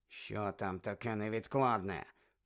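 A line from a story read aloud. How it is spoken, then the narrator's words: Hissing. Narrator (Ukrainian): Снейп почав сичати до Каркарова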